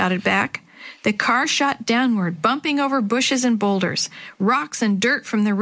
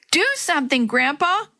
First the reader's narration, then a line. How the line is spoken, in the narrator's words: Willie shouted